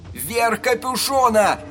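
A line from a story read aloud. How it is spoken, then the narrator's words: Shouting. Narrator (Russian): прокричал Эдди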